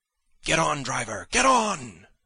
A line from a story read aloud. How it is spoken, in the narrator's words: I cried to the driver